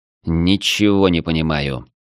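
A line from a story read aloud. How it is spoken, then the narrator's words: Muttering. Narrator (Russian): пробормотал я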